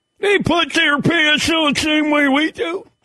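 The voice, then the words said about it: Imitates another person's voice. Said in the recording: “My Lou Holtz impersonation.”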